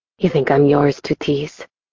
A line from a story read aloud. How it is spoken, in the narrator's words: He murmured in a condescending tone